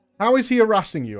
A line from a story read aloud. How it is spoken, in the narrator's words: I asked